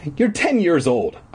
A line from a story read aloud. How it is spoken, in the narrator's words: I said sharply